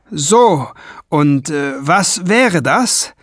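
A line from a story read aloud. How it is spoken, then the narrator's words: Calling upward. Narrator (German): rief er zu den speerspitzen Zähnen hinauf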